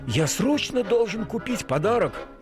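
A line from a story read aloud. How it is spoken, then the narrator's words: Exclaiming. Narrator (Russian): воскликнул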